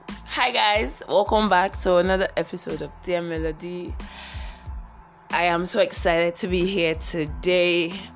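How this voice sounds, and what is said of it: Slightly sick, under-the-weather voice. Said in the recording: “I feel a little bit sick, so my voice is a little bit under the weather.”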